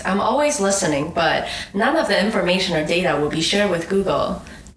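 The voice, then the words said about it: Imitated voice assistant voice. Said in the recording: “doing the Google voice.”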